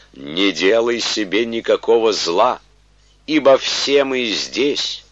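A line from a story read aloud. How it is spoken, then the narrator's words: Loud proclamation. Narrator (Russian): Павел возгласил громким голосом, говоря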